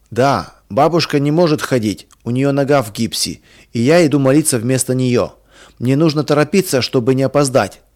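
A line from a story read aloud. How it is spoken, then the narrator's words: Plain. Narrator (Russian): сказал Миша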